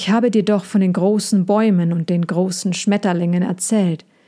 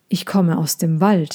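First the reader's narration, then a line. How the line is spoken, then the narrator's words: Not very tired. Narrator (German): sagte Sejana, und sie klang nicht besonders müde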